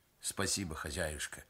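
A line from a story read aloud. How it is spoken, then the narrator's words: Affectionate. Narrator (Russian): ласково сказал мастер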